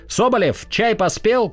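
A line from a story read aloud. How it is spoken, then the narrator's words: Captain's shout. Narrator (Russian): крикнул капитан Янакиев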